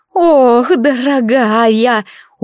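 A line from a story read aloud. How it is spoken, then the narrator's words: Tender sigh, old woman. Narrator (Russian): умильно вздохнула какая-то бабулька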